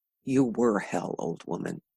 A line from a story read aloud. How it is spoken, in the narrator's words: he mumbled